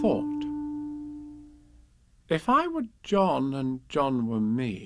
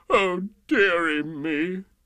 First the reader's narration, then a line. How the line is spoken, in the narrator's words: The King sobbed